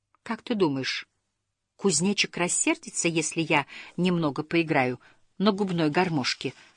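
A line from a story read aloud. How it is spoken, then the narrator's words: Whispered question. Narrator (Russian): шепотом спросил Снус Мумрик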